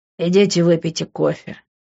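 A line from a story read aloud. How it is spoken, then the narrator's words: Grumbled. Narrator (Russian): буркнул я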